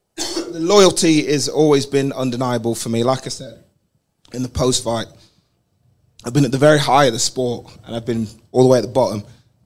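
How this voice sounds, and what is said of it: Damaged, strained voice. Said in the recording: “My voice is fucked”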